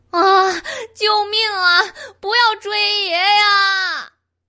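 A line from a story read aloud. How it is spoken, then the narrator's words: Crying out in fear. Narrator (Chinese): 狸奴哭喊着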